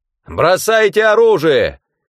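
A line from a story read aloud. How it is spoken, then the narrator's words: Shouted. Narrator (Russian): крикнул Бранд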